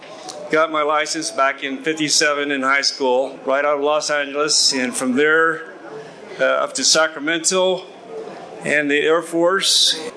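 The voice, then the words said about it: Southern California accent. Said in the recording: “I'm originally from California, and that's why this crazy accent, right? Southern Cal.”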